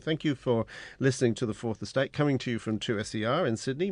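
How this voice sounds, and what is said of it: Slightly odd English accent. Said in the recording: “my slightly odd Pommy accent,”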